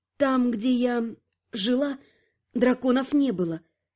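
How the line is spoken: Strained, forced out. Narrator (Russian): выдавила она

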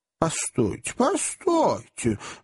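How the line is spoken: Small man's exclamation. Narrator (Russian): воскликнул маленький мистер Паркер

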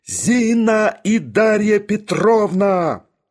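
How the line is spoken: Iron voice, then yelling. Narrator (Russian): железным голосом отозвался Барменталь и завопил

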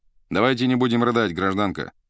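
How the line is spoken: Calm. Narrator (Russian): спокойно сказал первый

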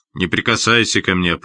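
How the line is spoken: Sharp shout. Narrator (Russian): прикрикнул он

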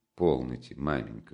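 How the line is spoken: Embarrassed mutter. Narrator (Russian): со смущением пробормотал он

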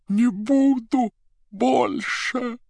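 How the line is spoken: Hoarse croak. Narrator (Russian): прохрипела голова

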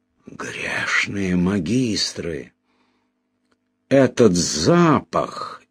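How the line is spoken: Amazed whisper. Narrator (Russian): изумленно прошептал Мелифаро

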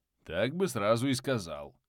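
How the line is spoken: Grumbling. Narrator (Russian): проворчал Веслоусый

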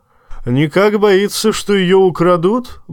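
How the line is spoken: Roared. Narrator (Russian): взревел, услышав об этом Тормунд

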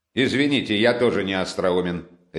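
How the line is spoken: Sharp interruption. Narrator (Russian): резко перебил Разумихин

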